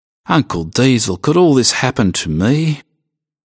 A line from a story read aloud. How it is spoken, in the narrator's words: asked Doug miserably